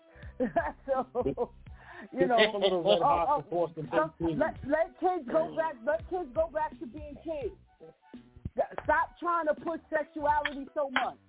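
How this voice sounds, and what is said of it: Put-on hood voice. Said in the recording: “Right now I'm in my hood voice.”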